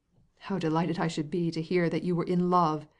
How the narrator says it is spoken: exclaimed Levin

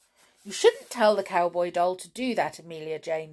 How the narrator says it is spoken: said Tom crossly

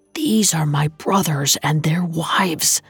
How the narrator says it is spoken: swallowed the lump rising in his throat and whispered

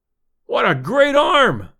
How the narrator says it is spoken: I exclaimed, deep in my throat

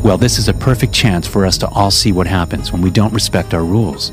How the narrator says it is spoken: she muttered

